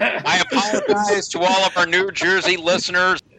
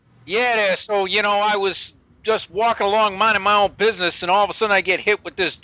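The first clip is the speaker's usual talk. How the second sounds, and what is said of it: Twangy attempted New Jersey accent. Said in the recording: “Someone give me a Jersey accent ... You have too much twang to be New Jersey in that accent.”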